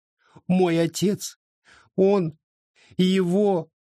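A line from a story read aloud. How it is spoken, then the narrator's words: Sobbing. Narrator (Russian): рыдание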